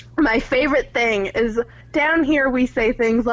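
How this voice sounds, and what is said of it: Usual voice. Nothing is said of it.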